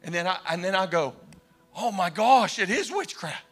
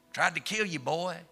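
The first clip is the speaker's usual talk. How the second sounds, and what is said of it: Deep thick Arkansas accent. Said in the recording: “deep Arkansas thick accent.”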